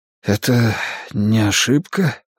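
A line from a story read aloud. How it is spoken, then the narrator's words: Breathless exhale. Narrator (Russian): выдохнул я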